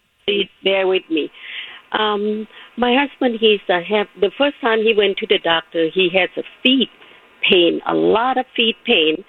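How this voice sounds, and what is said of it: Speaks with a foreign accent. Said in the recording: “Where's that accent?”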